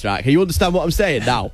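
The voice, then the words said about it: Put-on northern English accent. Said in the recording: “Give us the north of England accent ... in north, it sounded a bit like this”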